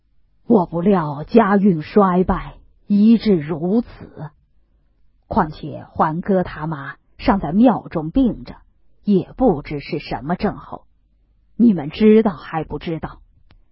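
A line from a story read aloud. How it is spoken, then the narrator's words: Sighing. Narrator (Chinese): 贾政叹了口气道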